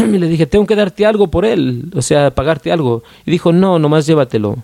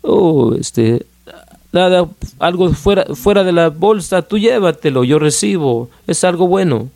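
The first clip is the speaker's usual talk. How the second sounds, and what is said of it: Put-on Israeli accent. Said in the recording (Spanish): “con ese acento eh, de, de medio este israelí”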